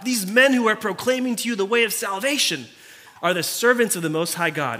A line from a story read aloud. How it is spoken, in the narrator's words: she cried out